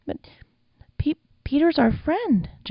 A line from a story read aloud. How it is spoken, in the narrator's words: Jack whimpered